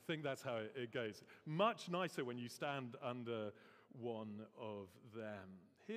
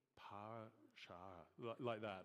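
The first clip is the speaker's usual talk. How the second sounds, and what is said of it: Northern Irish accent. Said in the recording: “now I was going to do the accent of what our Northern Irish friends call a”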